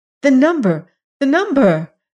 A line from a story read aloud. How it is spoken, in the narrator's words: cried Sabrinetta